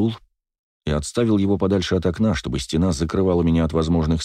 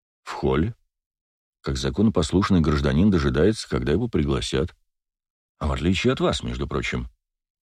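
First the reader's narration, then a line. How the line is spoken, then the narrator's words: Calm. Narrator (Russian): спокойно произнес Вельский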